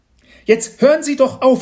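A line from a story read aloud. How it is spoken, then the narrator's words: Mother shouting. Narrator (German): schrie Mama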